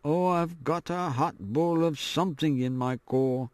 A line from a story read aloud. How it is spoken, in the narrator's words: One of the most daring boys muttering